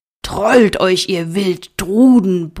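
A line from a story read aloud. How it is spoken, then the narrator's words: Roar. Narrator (German): brüllte er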